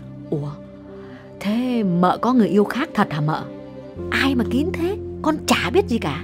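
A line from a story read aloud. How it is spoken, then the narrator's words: Lowered voice. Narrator (Vietnamese): Con Dung hạ giọng bảo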